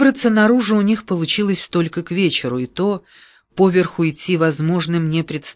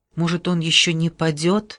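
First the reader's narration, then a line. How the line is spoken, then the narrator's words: Timid suggestion. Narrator (Russian): робко предположил Марко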